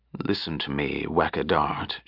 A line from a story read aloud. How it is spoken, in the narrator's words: she said quietly